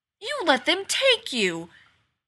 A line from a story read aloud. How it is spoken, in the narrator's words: She exclaims, she sounds surprised